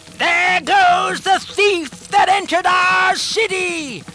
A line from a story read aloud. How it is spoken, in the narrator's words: The people shouted